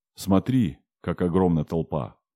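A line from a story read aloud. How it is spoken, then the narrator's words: Plain. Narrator (Russian): сказал старшина главному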